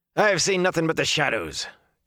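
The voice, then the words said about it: Character voice with heavy accent. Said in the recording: “came the answer in a heavy accent.”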